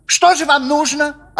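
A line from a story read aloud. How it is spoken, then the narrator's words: Snapping retort. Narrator (Russian): огрызнулся председатель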